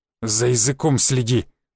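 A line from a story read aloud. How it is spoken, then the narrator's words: Angry growl. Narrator (Russian): зло прорычал Шишаков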